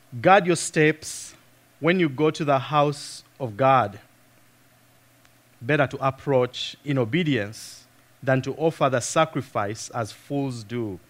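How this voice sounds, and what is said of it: Speaks with a noticeable accent. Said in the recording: “some of you may not be used to my accent”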